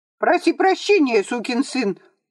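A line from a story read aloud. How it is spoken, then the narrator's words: Squeaky puny man. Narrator (Russian): пропищал Спиридоныч, щуплый лысый человек с бабьим лицом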